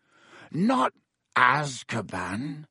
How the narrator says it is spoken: croaked Hagrid

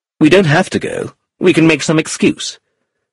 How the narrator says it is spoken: said sharply

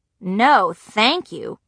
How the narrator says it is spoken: Gretchen said

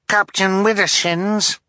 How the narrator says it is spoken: Violet called, her voice muffled through her helmet

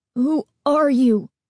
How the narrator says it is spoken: Steve demanded, his voice trembling

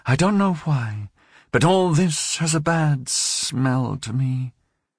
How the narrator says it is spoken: she involuntarily sighed and said

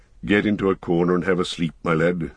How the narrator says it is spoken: he said in a kinder tone

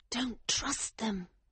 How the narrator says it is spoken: she whispered urgently

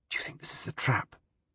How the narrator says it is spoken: fiercely whisper

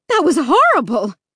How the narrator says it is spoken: my mom shrieked

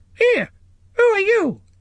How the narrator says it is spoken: it squeaked

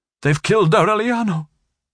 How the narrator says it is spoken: exclaimed

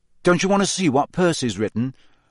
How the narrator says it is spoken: Harry asked her, hastily

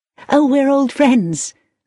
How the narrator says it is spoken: laughed Victoria

